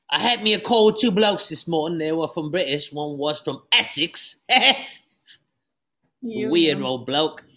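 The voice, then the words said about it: Put-on British accent. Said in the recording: “It's like me British accent.”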